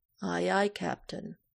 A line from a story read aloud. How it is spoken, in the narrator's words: Michael drawls